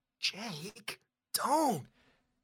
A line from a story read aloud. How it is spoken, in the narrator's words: You whisper loudly